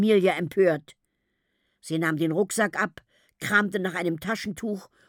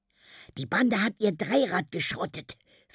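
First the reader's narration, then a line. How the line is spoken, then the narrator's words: Whispering. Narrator (German): flüsterte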